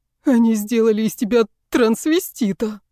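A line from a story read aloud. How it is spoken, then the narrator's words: Howling. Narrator (Russian): взвыл мой парень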